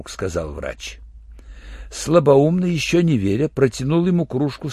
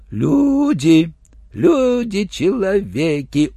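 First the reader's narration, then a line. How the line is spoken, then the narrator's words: Respectful drawl. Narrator (Russian): уважительно протянул слабоумный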